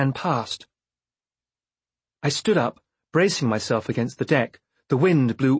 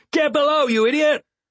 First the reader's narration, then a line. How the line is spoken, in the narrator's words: One of the men shouted at Vindelire